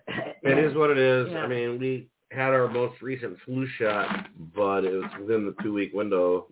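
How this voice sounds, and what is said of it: Gravelly, raspy sick voice. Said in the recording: “I can hear it in my voice ... It's so gravelly. ... Raspy. ... Kind of Tasmanian devilish.”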